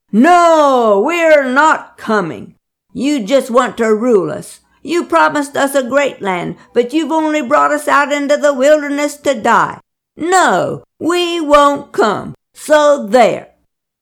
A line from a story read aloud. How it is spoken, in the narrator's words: staunch rebels bellowed